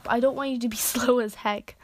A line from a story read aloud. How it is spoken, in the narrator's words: he yelled while jogging down the track